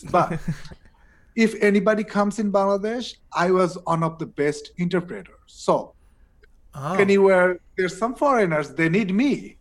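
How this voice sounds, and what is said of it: Non-native English accent. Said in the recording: “I apologize for my English. It's not really great ... my accent was bad than this”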